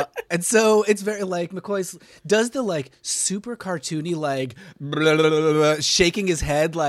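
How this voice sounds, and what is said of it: Usual voice. Nothing is said of it.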